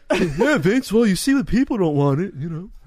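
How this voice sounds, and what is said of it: Imitates another person's voice. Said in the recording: “my Triple H impression”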